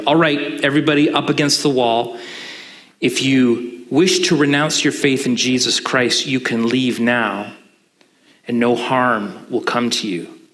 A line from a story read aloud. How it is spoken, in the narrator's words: one shouted